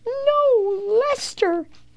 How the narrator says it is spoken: cried Leo

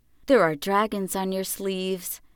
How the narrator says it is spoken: she said softly

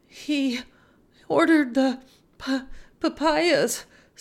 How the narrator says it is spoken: sobbed Esperanza

